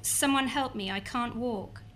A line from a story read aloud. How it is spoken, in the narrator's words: Another cried